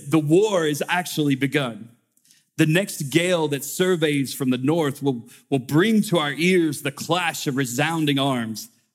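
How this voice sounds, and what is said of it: Put-on old-fashioned orator accent. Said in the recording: “I'll apologize beforehand if I enter into this accent... I wish I could talk like that”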